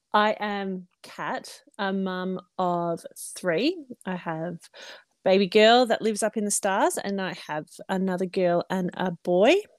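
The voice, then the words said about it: Australian accent. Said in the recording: “I'm sure they'll hear your accent and be like, where is she from? ... I am Australian, obviously.”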